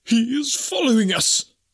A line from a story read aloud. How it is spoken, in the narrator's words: gasped